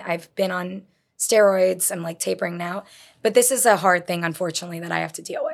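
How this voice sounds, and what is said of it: Weakened voice, not fully recovered. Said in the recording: “I lost my voice... I lost my voice completely... This is better than it was... not always having a full voice and not being able to hit notes I used to hit”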